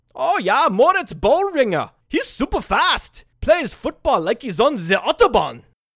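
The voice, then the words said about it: Bad put-on German accent. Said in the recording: “that terrible German accent ... Again, that was terrible ... it was a really bad impersonation”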